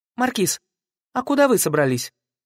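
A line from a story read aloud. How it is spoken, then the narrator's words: Rather sharp. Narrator (Russian): довольно резко сказала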